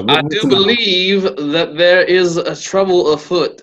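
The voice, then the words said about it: Poor Daniel Craig Knives Out accent. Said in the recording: “a Knives Out reference ... very poor representation of Daniel Craig's ridiculous accent”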